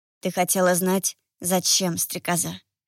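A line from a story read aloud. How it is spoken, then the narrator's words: Whisper. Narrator (Russian): прошептал Марион, склоняясь ко мне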